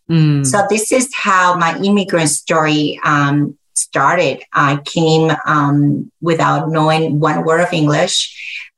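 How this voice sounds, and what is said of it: Very heavy accent. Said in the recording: “I still have a very heavy accent”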